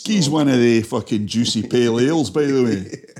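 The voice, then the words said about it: Convincing put-on Scottish accent. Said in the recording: “That's a really good accent. ... You're the first Scottish person that's been able to admit that to me.”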